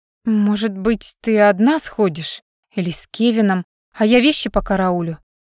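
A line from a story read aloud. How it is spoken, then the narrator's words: Hesitant woman. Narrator (Russian): неуверенно предложила женщина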